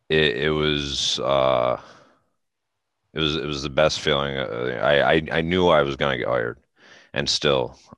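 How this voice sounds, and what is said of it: Teary, emotional, halting voice. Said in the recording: “I'm getting teary right now”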